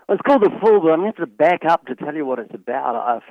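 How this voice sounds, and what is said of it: New Zealand accent. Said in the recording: “you're from New Zealand ... accent ... why he talks funny ... This is not a SoCal accent”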